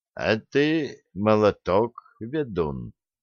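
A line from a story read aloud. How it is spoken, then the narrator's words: Quiet. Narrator (Russian): тихо добавил Олег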